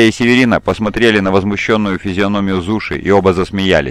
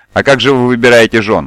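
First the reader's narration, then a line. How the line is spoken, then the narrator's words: Exclaiming. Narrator (Russian): воскликнула Северина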